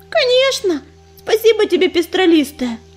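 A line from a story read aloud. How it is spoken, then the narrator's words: Joyful, then timid hesitant question. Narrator (Russian): Обрадовалась Листвичка, но тут же замялась и робко спросила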